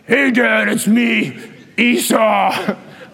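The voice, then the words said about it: Put-on different character voice. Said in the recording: “put on a different voice.”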